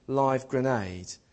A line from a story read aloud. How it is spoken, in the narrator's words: the guy lobbed the grenade onto the floor and shouted